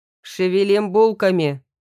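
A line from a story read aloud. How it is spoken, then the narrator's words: Sharp shout. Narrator (Russian): прикрикнул на Яну и Стрельцова Борис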